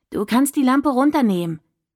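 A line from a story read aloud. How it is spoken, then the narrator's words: Calling out. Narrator (German): rief sie dem Licht entgegen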